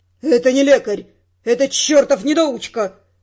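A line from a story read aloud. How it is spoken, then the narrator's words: Angry. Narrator (Russian): сердито говорил Костеляну Виконт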